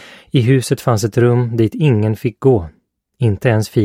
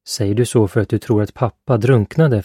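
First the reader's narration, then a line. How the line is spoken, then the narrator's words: Plain. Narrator (Swedish): frågade Philip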